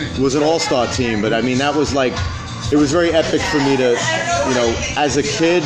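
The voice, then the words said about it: Brooklyn accent. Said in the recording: “Your Brooklyn accent.”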